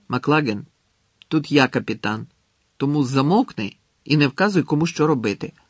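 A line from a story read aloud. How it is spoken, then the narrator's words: Angrily cut off. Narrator (Ukrainian): сердито обірвав його Гаррі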